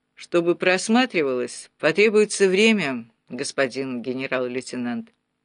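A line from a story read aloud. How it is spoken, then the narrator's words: Dry. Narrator (Russian): Гуров сухо произнес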